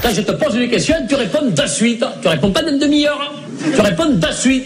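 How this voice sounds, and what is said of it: Put-on Southern French accent. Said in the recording (French): “prennent l'accent du Sud”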